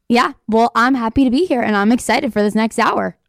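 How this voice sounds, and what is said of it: Slightly raspy recovering voice. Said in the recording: “my voice is back a little bit ... it's still a little raspy, but it's coming back ... It's a little raspy. It's not as Bobby Brady-ish as it was yesterday”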